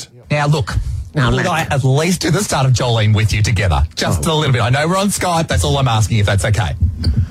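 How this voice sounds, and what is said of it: Strong Australian accent. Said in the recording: “You have such an accent, you know. You're very down under.”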